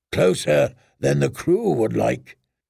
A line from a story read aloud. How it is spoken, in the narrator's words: Makoro said in his deep voice